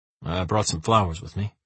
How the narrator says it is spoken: he mumbles

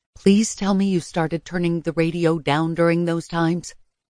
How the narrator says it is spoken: I whispered

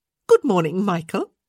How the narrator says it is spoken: Janet said cheerfully

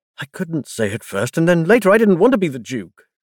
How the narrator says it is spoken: Cassian said, the words spilling out urgently

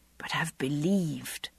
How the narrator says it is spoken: I whispered under my breath

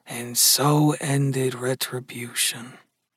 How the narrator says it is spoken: Gus murmured softly

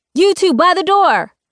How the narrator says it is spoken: shouts a junior agent

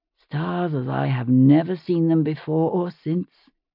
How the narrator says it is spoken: he added softly

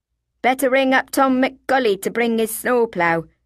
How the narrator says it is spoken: someone said

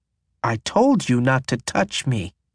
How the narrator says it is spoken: Charlie says through clenched teeth

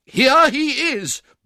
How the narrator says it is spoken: bawled Giles, calling in a state of great excitement up the staircase

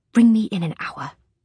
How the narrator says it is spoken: hiss

